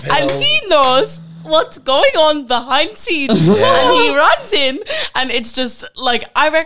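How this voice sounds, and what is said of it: Usual voice. Nothing is said of it.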